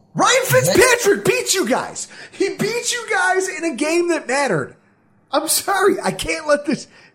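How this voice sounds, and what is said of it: Yelling, emotional. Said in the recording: “I'm sorry I'm yelling. ... I'm emotional.”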